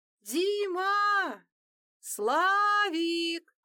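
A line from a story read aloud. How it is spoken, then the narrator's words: Screaming at full voice. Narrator (Russian): закричала она со всей мочи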